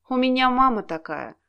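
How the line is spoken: Sympathetic, expressive sigh. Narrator (Russian): посочувствовал, и выразительно вздохнул

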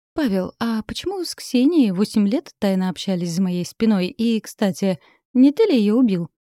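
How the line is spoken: Nervous giggle. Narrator (Russian): Катерина нервно хихикнула

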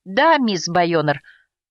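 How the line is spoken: Breathed out. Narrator (Russian): выдохнул Уилл

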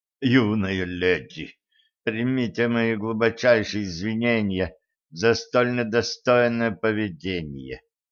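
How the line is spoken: Said through gritted teeth. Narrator (Russian): процедил Майлзу, который, похоже, очень хотел жить

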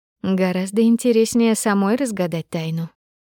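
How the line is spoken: Purring. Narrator (Russian): промурлыкала Асаида

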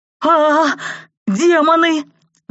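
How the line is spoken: Howled. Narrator (Russian): взвыл кто-то рядом

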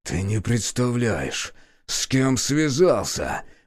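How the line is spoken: Hissing through blood. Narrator (Russian): прошипел сквозь запекшуюся кровь

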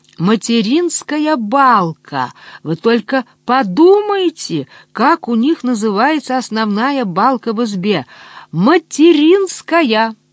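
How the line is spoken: Joyful laughter. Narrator (Russian): Он радостно смеялся

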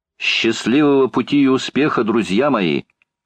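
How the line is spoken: Farewell shout. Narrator (Russian): крикнула в последний раз леди Элен Сьюта

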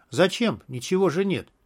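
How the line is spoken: Quiet reply. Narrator (Russian): тихо ответил Берик

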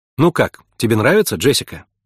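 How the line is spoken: Plain. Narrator (Russian): спросила Эмма

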